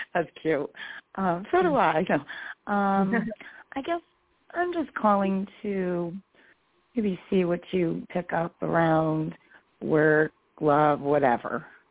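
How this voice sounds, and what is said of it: Slightly hoarse voice. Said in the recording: “forgive my voice. I'm a little hoarse.”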